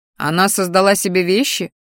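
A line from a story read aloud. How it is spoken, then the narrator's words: Snorting remark. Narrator (Russian): хмыкнул ректор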